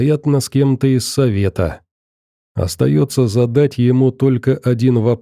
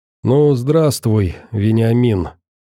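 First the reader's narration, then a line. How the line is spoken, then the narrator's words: Heavy sigh. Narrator (Russian): Тяжело вздохнул советник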